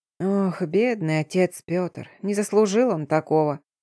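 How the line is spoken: Muttering. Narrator (Russian): бормотала хозяйка

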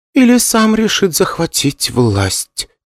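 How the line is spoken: Quiet. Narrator (Russian): тихо добавила Юн

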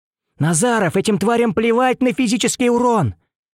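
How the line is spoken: Shouting. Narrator (Russian): закричал я

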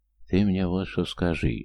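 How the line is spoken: Uncle whispering in ear. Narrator (Russian): шепнул на ухо кресту дядя

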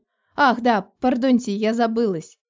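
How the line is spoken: Giggling. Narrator (Russian): хихикнула я

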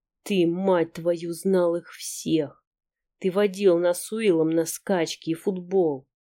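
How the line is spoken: Hateful growling. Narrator (Russian): Сэм не говорит, не может говорить, только рычать, озлобленно, с ненавистью

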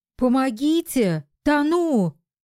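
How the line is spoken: Full-voice desperate scream. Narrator (Russian): Во весь голос закричала осознавшая свое бедственное положение Зоська

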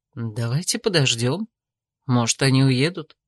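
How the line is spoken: Quiet suggestion. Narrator (Russian): тихо предложил Томин

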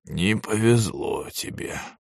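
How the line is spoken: Muttered. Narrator (Russian): пробормотал Ямада-сенсей

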